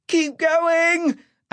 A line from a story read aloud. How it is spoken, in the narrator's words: Ash shrieked